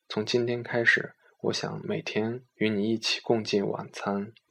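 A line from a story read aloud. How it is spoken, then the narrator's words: Soft. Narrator (Chinese): 我轻声地告诉他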